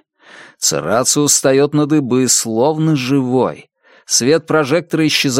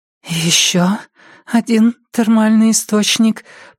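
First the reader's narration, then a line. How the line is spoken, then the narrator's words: Trembling voice. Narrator (Russian): произносит она дрожащим голосом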